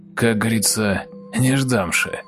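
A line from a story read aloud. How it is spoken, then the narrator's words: Angry, through gritted teeth. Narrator (Russian): зло и яростно, и процедил сквозь зубы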